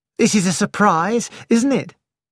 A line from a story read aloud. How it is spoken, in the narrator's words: she said, cheerfully